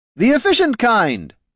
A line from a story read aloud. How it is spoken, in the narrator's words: shouted Mr